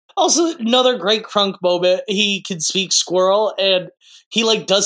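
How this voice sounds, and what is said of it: Usual voice. Nothing is said of it.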